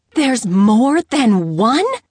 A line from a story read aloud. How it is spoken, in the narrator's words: Isabel screeched